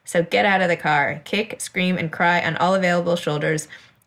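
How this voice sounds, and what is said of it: British accent. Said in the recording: “that sounds so good in your accent. You make that sound really smart and eloquent ... everything sounds cooler in a British accent”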